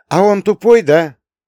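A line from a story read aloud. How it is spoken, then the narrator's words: Deliberately loud question. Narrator (Russian): нарочито громко спросил я Таню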